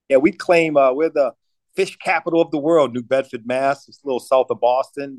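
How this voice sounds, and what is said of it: East Coast American accent. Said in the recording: “you got that East Coast accent I'm picking up”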